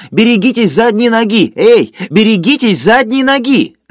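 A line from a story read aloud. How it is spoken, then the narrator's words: Loud pained shouting. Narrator (Russian): скорчившийся человек, держась за живот, громко кричал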